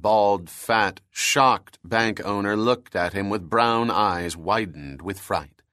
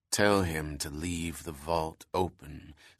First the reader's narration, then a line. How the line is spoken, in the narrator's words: said the bank robber quietly, with a sharp edge to his voice